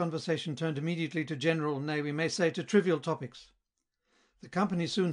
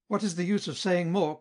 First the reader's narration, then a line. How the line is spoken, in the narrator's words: cried Wilhelm